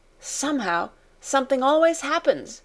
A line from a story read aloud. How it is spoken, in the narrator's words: she cried